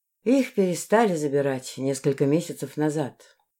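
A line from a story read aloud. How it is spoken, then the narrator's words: Sigh. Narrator (Russian): вздохнула Зен-Зен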